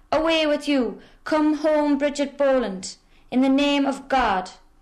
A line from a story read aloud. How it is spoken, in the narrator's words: all shouted